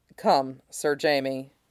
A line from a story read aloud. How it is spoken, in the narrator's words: Ned said quietly